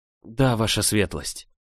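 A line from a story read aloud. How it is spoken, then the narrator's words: Mumbling. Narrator (Russian): промямлила я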